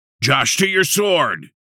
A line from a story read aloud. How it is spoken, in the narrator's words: Blade yelled